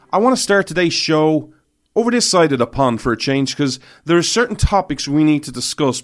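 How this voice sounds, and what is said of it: Irish accent. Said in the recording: “This Irish man stands with America ... where you come for the accent, but you stay for the principles”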